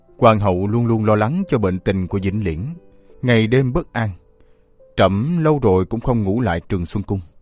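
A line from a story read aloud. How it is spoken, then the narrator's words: Quiet sigh. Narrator (Vietnamese): Hoàng đế im lặng thở dài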